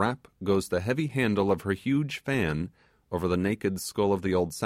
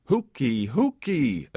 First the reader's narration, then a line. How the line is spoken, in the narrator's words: cries